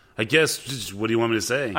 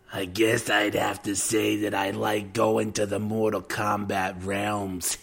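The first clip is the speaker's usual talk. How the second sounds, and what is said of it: Raspy old Brooklyn woman voice, lisping. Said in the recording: “Lambert kind of sounded like an old Brooklyn broad who's a heavy smoker. So can you do that voice, but with a Christopher Lambert lisp?”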